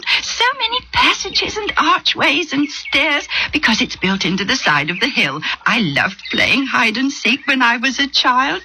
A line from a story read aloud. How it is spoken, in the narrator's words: said, still giggling